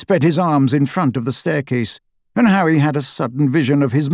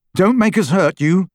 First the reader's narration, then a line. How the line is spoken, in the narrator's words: Harry said